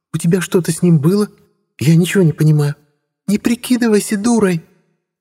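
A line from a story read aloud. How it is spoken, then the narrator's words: Shrill, losing control. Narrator (Russian): Ирина взвизгнула, явно теряя на собой контроль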